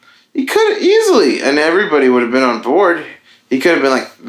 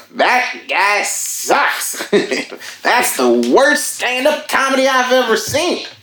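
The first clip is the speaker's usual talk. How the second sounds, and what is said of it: Imitates another person's voice. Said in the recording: “It's a really good impression.”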